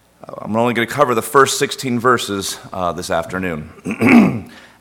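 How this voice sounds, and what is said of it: Hoarse, strained voice. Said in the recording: “apologize for my voice. I'm going to be happy when soccer season is over so I can stop yelling ... I'll try to get through this without losing too much.”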